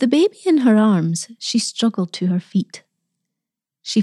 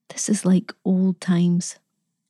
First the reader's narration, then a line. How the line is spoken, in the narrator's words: whispered